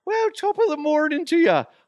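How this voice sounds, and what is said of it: Exaggerated put-on Irish accent. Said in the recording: “Have you ever heard my Irish one? ... I sound like I'm looking for me lucky charms.”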